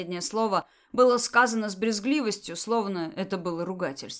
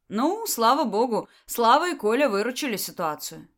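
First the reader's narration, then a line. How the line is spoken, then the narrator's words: Cheerful. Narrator (Russian): весело сказала Беата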